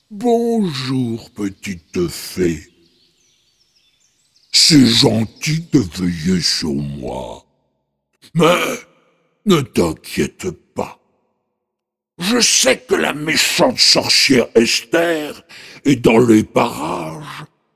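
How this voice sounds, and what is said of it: Deep booming ogre voice. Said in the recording (French): “Il s'agissait bien d'un ogre, avec une grosse voix.”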